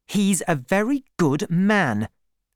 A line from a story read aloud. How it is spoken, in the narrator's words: said Bathsheba angrily